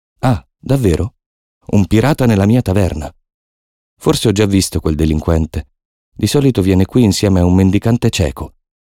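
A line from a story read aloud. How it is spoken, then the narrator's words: Said loudly. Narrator (Italian): dice Silver a voce alta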